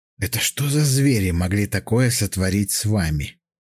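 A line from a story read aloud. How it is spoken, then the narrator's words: Whisper. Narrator (Russian): прошептал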